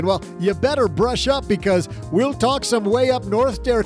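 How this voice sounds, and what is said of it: Put-on Canadian accent. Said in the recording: “it's just so fun to talk in a Canadian accent. I'm pretty darn good at it, too”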